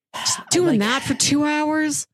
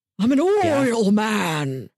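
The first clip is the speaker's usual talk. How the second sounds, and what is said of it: Daniel Plainview impression. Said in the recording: “do a Daniel Plainview impression.”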